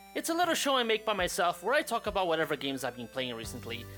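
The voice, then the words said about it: Unusual accent. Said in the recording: “my weird accent”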